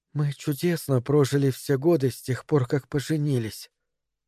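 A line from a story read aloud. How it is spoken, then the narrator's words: Quiet. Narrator (Russian): тихо сказала Мэри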